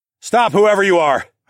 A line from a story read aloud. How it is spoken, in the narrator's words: shouted